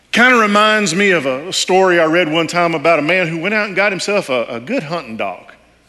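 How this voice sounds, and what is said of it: Texas accent. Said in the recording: “I'm from Texas ... if you couldn't tell by now with the accent”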